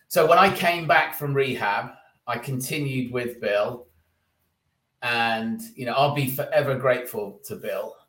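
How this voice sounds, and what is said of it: British accent. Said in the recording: “you got the British accent”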